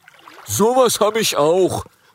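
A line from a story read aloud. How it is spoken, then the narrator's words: Called out. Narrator (German): ruft ein Rüsseldrache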